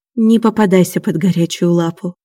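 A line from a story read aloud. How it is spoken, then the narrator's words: Sighing. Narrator (Russian): вздохнула Аня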